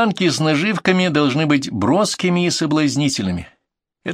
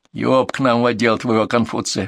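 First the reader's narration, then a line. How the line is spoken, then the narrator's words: Grumbling. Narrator (Russian): проворчал оперативник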